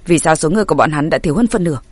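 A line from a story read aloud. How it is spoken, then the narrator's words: Quiet voice. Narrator (Vietnamese): hắn ta nhỏ giọng nói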